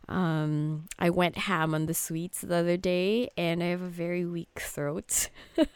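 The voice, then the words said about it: Hoarse, husky sore-throat voice. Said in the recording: “my voice sounds like this, it's because I caught a cold ... I only get a very sexy bedroom voice when I get a sore throat like this”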